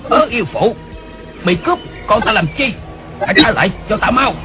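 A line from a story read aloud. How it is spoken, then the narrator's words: Distant loud shout. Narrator (Vietnamese): Đột nhiên từ lưng chừng núi có tiếng người quát lớn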